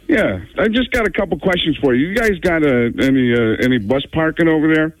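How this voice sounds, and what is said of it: Pretty good John Madden impression. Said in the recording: “it's pretty funny to hear him think that he sounds like John Madden ... That's what John Madden sounds like. That's right. A pretty good John Madden impersonation.”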